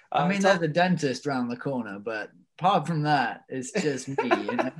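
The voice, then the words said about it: Slight English accent. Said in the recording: “you got a little bit of an accent there. You're originally from England”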